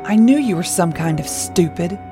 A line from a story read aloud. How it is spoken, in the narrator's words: he growled